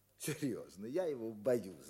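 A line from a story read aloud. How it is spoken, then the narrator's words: Laughing, delighted. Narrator (Russian): говорил он, смеясь и как бы радуясь этой боязни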